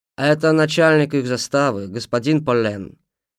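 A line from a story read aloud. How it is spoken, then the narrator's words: Plain, in French. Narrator (Russian): сказал капитан по-французски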